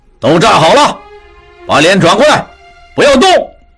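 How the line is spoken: Shouted command. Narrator (Chinese): 一名负责行刑的军官对他们喊道

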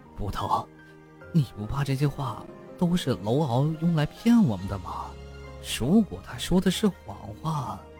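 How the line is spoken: Hushed, secretive. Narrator (Chinese): 吴文神秘地压低了声音

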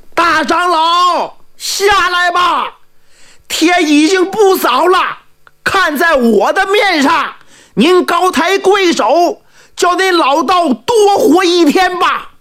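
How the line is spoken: Calling out. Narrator (Chinese): 茶棚看台的诸葛先生喊话了

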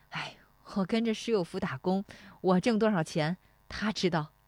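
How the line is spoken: Laughing. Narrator (Chinese): 石丽华笑说

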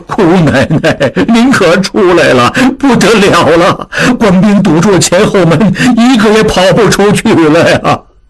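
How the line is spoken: Crying, urgent. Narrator (Chinese): 景清急忙…哭道

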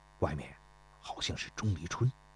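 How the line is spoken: Whispering. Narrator (Chinese): 田忌对孙膑悄声地说道

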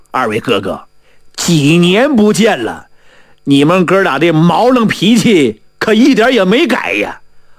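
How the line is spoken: Laughing. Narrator (Chinese): 蔡文龙笑了

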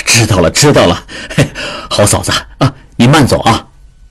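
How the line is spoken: Laughing, slightly impatient. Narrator (Chinese): 智庸笑中带点不耐烦地说

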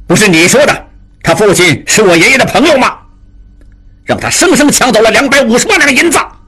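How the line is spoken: Furious cursing. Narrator (Chinese): 金勇 拍案大骂

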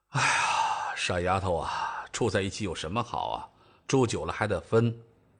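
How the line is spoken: Dejected sigh, muttering to self. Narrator (Chinese): 赵正大失落地叹了口气，自言自语地说道

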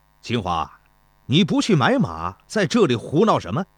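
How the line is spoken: Angry reproach. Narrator (Chinese): 说话的是田忌，他满脸愠怒

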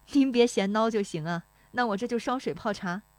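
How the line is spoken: Smiling, cheerful. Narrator (Chinese): 那妇女笑盈盈地说

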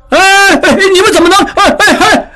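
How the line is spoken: Shouting. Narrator (Chinese): 茂才大叫起来

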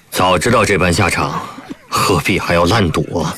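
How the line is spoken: Sighing. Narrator (Chinese): 方隐峰不由得叹了口气

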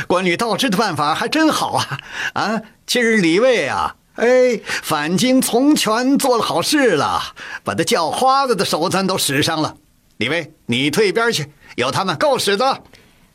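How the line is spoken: Laughing, still shaken. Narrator (Chinese): 惊魂未定，乾隆笑着说

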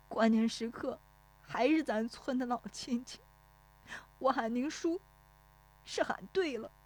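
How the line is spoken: Tearful, choked voice. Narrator (Chinese): 热泪涌出来，带着哭腔说

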